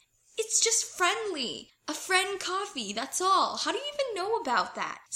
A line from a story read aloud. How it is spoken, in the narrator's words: Styles squawks indignantly